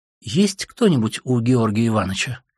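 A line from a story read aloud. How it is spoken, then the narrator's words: Soft, glad, sheepish question. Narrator (Russian): спросила она мягко, радостно и как бы стыдясь своего недоверия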